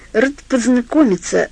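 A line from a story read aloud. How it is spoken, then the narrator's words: Forced strained words. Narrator (Russian): выдавил он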